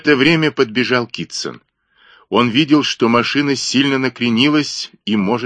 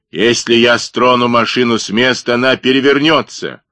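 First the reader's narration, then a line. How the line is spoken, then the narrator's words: Barking. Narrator (Russian): рявкнул Блек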